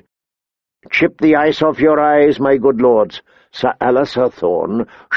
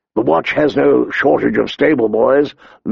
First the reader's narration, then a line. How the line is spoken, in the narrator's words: Lord Mormont grumbled